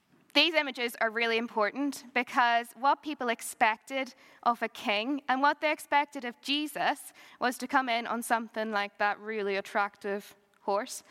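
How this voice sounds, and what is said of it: Strong Northern Irish accent. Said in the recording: “my accent might be stronger at the minute... I'm just back from Northern Ireland.”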